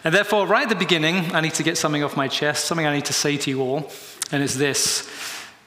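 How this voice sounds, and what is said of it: British English accent. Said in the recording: “maybe you can tell by my voice, I'm a Brit living here in the US.”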